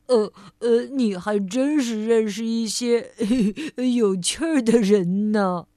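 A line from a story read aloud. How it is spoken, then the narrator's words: Smiling. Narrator (Chinese): 贪吃先生笑着对快乐先生说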